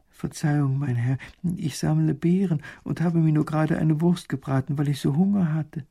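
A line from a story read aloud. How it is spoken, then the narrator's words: Frightened woman. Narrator (German): Die Frau wird ganz ängstlich bei den strengen Worten und sagt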